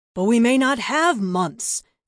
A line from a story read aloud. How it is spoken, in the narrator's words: Zirak retorted, a hint of a roar underlying the words